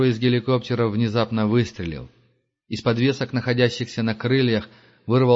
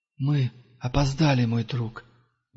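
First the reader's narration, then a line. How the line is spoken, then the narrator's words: Breathed out. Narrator (Russian): выдохнул Пилигрим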